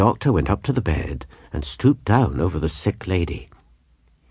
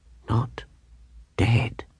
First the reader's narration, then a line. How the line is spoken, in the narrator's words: says she, whispering and turning all of a tremble from head to foot